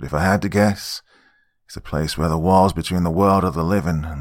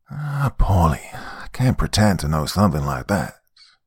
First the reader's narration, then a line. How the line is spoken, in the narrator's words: Uncle Johnny sighed